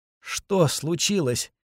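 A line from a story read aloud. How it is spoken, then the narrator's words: Faint moan. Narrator (Russian): еле слышно простонала она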